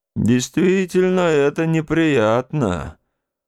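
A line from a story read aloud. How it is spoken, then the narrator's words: Grumbling. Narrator (Russian): проворчал дядя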